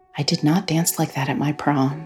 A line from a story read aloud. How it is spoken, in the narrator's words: she whispered